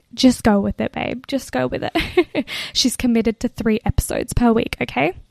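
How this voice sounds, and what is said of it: Whispering. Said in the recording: “why are you whispering? I'm whispering ... try to record a podcast in a family apartment in London whilst whispering”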